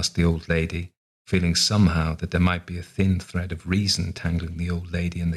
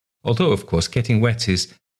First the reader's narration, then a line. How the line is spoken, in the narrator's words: added nervously